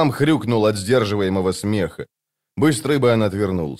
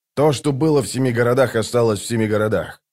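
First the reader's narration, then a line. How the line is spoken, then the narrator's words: Plain, bird speaker. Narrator (Russian): сказал скворец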